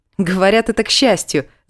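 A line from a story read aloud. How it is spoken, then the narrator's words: Laughing. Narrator (Russian): засмеялась я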